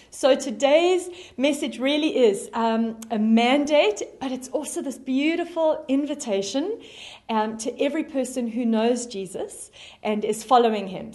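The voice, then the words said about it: South African accent. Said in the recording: “you can hear from my accent, that I am originally from South Africa”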